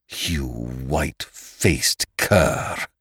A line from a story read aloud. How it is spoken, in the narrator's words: he snarled through clenched teeth